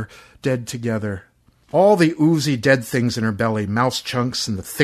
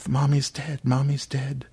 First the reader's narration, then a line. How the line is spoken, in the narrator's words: Aaron said quietly to the invisibles